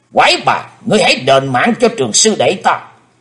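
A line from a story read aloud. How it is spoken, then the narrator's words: Loud shout. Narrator (Vietnamese): Hải Âu quái khách quát lớn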